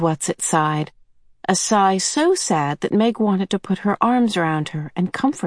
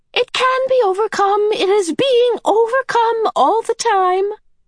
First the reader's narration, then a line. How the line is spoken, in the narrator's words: the medium cried, smiling happily